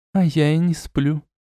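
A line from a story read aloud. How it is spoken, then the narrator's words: Quiet answer. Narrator (Russian): тихо ответила она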